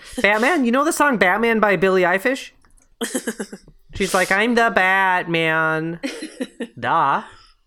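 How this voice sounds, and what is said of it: Put-on Minnesota accent, stretched O's. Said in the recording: “I'm like doing this accent now for a mom. This is what moms sound like. ... You're going for the Minnesota trope ... they really stretch out their O's.”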